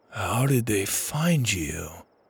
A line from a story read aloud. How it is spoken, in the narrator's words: He said quietly